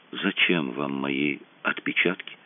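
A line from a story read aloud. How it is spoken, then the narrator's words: Barely audible question. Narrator (Russian): Еле слышно спросил он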